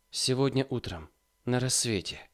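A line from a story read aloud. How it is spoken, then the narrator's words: Muttering. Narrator (Russian): бормотала Марья Власьевна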